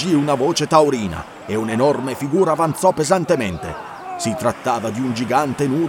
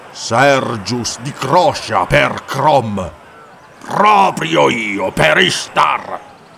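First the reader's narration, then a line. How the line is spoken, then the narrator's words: Giant's hateful thundering. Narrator (Italian): tuonò il gigante, i piccoli occhi neri scintillanti d'odio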